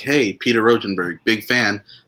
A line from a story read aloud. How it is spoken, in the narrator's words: Otis yelled out